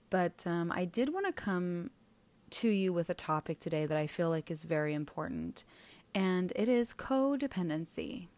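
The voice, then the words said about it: Strange, sick-sounding voice. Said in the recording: “my voice is a little bit strange today because I've been sick for weeks now... forgive me if I'm a little bit off today”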